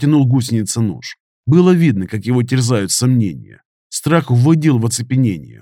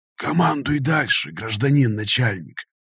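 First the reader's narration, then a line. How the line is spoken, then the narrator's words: Wary whisper. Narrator (Russian): прошептал гусеница с опаской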